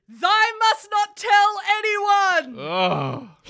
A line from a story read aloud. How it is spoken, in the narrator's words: He screamed